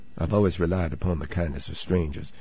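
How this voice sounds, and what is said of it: Southern drawl. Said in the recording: “Southern drawl there.”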